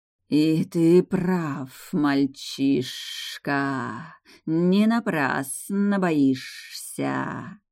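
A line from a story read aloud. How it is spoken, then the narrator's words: Barely audible through hissing. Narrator (Russian): С трудом разобрала я сквозь шипение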